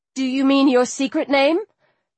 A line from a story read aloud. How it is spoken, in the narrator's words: The demon laughed